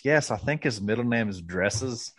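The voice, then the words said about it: Imitated David Feherty accent. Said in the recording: “You actually did a good job with the accent too.”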